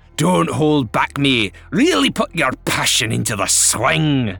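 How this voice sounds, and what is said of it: Fake Scottish accent. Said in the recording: “infuriating faux Scottish accent”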